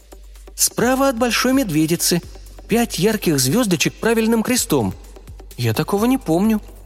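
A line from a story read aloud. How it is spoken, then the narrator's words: Bewildered repeating. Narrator (Russian): растерянно повторила она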